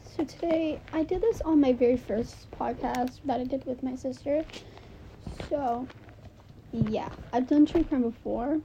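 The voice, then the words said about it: Quiet, low-energy sore-throat voice. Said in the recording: “why do I sound like this? I feel I've got a sore throat ... if I'm not loud and energetic as I am usually”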